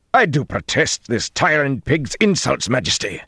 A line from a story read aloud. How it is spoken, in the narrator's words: Gregorin growled